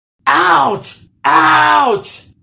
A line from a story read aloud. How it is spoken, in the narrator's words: screamed the troll